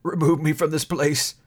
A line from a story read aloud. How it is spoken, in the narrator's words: said Scrooge in a broken voice